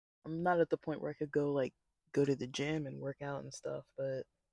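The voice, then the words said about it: Slightly raspy voice. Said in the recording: “It probably sounds a little raspy, but sometimes I'm just a little raspy anyways, but this is definitely due to the Rona”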